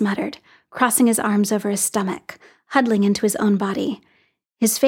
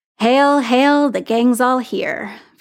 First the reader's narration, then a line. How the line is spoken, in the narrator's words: Fury said, his voice sardonic